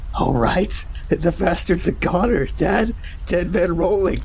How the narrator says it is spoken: shrieked between gasping chuckles

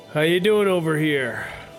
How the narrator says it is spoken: shouts out to Cornelius

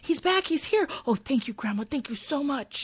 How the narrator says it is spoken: excitedly, saying

